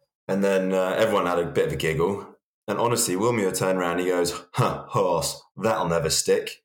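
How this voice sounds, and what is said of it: Usual voice. Nothing is said of it.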